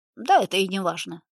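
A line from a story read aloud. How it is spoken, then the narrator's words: Loud. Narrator (Russian): громко сказал Филиппов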